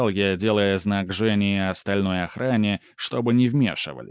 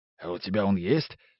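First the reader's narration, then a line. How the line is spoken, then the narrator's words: Whisper. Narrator (Russian): шепнул Женя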